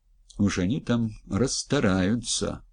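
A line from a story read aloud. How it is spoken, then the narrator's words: Grumbled mutter. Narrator (Russian): буркнул Грязнов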